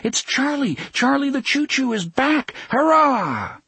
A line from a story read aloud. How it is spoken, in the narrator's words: they cried